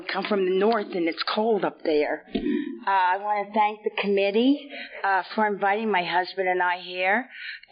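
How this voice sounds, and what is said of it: Hoarse, congested sick-sounding voice. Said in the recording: “excuse my voice. I've got a bad cold.”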